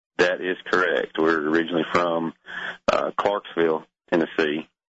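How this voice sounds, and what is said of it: Tennessee Southern accent. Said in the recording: “you didn't sound like a Floridian. ... I'm trying to hold on to my accent.”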